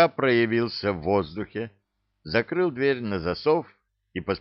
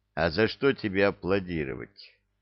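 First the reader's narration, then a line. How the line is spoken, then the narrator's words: Gloomy question. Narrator (Russian): мрачно спросил он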